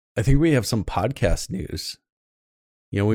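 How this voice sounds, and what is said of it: Usual voice. Nothing is said of it.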